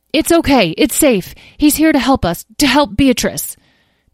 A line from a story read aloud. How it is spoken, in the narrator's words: Tom called out